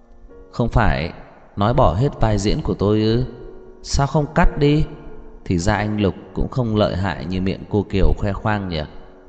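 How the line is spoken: Fearless with a soft laugh. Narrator (Vietnamese): Lâm Thị Ý khẽ cười một tiếng, không sợ hãi chút nào, mở miệng nói

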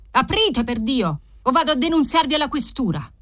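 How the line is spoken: Shouted louder. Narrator (Italian): aveva gridato più forte

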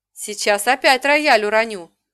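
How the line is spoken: Shouted. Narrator (Russian): выкрикнула

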